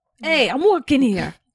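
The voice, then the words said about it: Put-on New York accent. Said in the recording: “What's a New York accent? ... Yes. No, that was good.”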